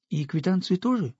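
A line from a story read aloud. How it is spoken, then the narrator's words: Timid question. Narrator (Russian): робко спросила Ламзина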